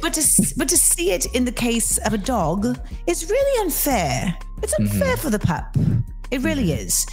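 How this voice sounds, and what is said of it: American doing a British accent. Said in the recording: “Are you annoyed by my accent yet? ... it's definitely like you're American trying to be British.”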